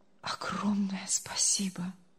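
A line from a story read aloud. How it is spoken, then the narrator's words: Barely audible speech. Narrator (Russian): едва слышно проговорил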